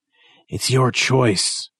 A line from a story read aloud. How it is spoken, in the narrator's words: Chappelle gasps, his skinny body shaking